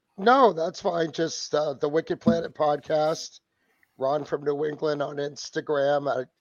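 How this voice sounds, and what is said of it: Hoarse, strained voice. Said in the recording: “Excuse my voice. It's been gone for a couple weeks... I kind of blew it out even worse”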